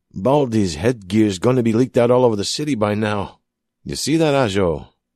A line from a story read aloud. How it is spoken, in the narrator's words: grunted again